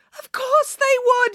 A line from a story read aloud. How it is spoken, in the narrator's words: yelled Mum